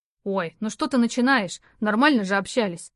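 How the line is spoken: Irritated young man. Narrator (Russian): раздраженно парень

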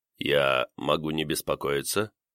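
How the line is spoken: Calm, confident young male voice. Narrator (Russian): Молодой мужской голос звучал спокойно и уверенно

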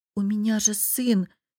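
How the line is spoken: Uncertain. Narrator (Russian): неуверенно проговорила София

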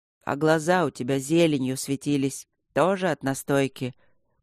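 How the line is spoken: Weary questioning. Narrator (Russian): Как-то устало продолжил допрос Михей

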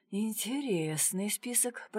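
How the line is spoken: Muttering. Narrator (Russian): пробормотал Дронго

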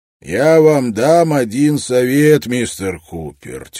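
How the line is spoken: Heavy voice. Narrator (Russian): тяжелым голосом сказал Брок

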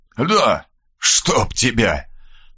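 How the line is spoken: Hoarse rasp. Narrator (Russian): прохрипел Мальцев

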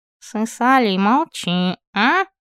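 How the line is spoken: Through smiling clenched teeth. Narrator (Russian): Процедил сквозь зубы, не переставая лучезарно улыбаться

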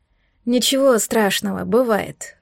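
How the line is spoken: Tired, dismissive. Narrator (Russian): устало отмахнулась я

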